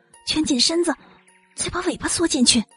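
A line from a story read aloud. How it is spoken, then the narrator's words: Quiet reminder. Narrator (Chinese): 邋遢熊小声提醒道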